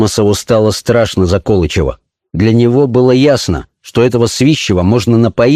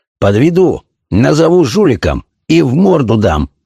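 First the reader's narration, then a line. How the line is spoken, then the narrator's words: Growling. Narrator (Russian): прорычал Свищев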